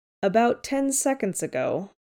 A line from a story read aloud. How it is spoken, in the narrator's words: says dryly